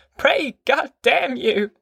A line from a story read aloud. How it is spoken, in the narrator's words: Grandma cried